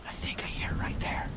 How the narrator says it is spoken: I whispered

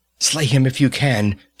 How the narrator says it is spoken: she panted

